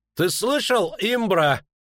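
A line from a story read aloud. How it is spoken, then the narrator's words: Booming mocking voice. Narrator (Russian): прогремел в тишине насмешливый голос Боннарта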